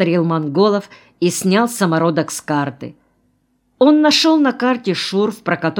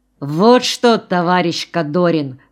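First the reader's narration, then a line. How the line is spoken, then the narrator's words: Plain. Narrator (Russian): сказал он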